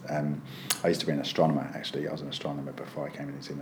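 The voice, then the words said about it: British English accent. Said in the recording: “I'm actually British. I actually come from the UK. I don't know if you can tell accents very well”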